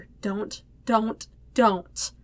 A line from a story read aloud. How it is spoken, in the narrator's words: whisper